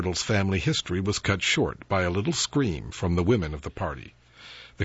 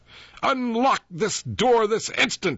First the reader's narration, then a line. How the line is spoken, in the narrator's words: he shouted, with as much air of menacing authority as a hen might assume when screaming through the bars of a coop at a marauding hawk